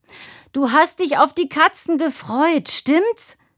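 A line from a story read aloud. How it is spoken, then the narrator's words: Bellowed. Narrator (German): brüllte Tine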